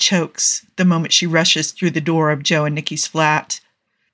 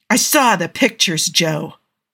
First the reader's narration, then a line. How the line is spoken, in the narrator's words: Andy shouts